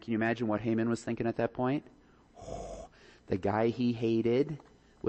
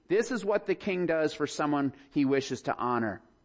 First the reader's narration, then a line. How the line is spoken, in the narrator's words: shouting